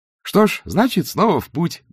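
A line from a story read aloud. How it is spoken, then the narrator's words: Cheerful, brisk. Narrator (Russian): бодро сказал два цветок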